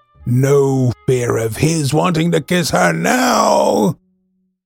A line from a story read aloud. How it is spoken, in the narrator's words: She said to herself with a wicked laugh